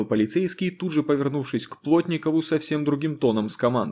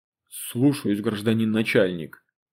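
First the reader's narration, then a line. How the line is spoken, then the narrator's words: Grumbled. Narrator (Russian): буркнул Костя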